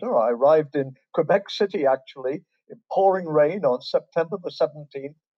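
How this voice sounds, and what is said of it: English accent. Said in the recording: “As you can tell from my accent, I was born in England and raised in England.”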